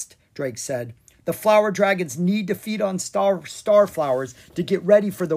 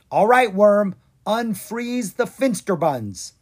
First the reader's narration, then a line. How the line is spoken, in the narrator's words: Drake yelled